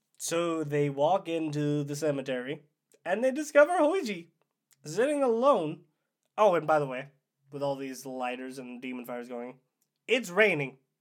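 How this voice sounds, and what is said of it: Hoarse, mostly lost voice. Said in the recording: “my voice is gone. It's going to be even worse than usual.”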